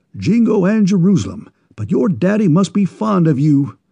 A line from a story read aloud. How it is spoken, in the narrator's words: exclaimed the enthusiastic New Englander